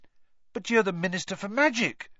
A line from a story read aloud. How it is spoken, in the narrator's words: said Harry eagerly